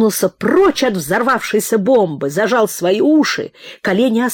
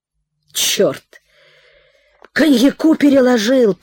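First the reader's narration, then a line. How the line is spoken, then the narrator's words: Mumbling. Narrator (Russian): промямлил Прохор Петрович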